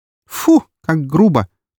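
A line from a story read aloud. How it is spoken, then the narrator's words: Quick disgusted retort. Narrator (Russian): тут же наморщила она носик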